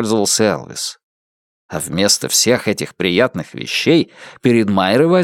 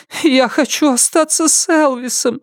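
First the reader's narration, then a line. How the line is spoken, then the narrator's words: Whining, whimpering. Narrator (Russian): захныкала она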